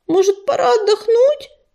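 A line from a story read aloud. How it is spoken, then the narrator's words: Groaning. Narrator (Russian): простонала она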